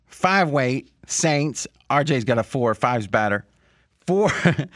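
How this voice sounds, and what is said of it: Imitates another person's voice. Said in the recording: “Do it in a Fez voice ... I'm going to do it in a Fez voice. ... we'll forget the imitations now.”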